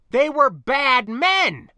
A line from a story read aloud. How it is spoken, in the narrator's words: I cried, this apparent obtuseness beginning to feel very much like a passive-aggressive attack on my character